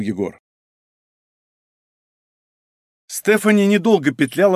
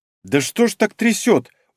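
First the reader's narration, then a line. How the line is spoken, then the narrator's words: Startled gasp. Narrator (Russian): охнула Соня, когда машина в очередной раз резко провалилась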